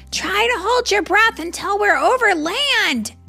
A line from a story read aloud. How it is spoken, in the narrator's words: shouted George